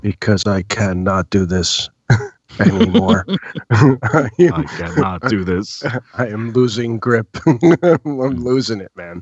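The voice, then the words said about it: Flat monotone speech. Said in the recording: “that's why we're talking like this, very monotone.”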